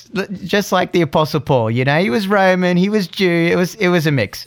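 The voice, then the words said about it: Slight, not fully Australian accent. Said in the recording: “I have a bit of an Aussie accent, but if there's Aussies out there, they're going to say, nah, it's not fully Aussie.”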